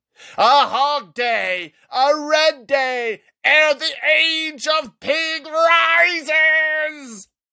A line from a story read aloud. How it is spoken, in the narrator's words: Vool shouted